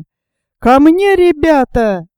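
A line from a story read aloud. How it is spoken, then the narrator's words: Yelled. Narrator (Russian): завопил Боб Гарви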